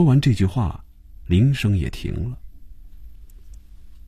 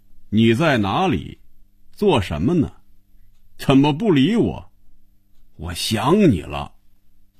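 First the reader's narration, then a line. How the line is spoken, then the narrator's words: Reading aloud loudly. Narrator (Chinese): 开始大声念着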